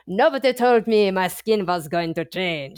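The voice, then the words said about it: Bad put-on French accent. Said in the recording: “That was the worst French accent ever... I did not pull that off. That was terrible”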